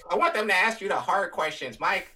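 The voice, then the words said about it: Imitates another person's voice. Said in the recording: “your Aragon impression is simpler than my Colin impression.”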